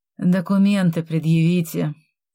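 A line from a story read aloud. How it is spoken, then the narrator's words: Heavy sigh. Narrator (Russian): тяжело вздохнул лжеследователь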